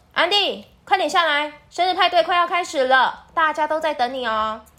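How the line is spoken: Mother shouting from downstairs. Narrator (Chinese): 安迪的妈妈在楼下客厅大喊

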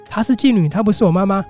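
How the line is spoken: Frantic shouting. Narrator (Chinese): 他疯狂的喊着说

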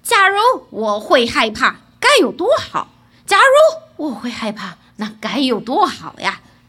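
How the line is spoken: Plain. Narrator (Chinese): 他的贴身女仆对他说

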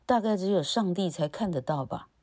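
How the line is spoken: Sighing. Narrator (Chinese): 哈尔叹了口气

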